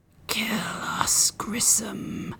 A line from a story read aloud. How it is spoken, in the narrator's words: Fincher whispered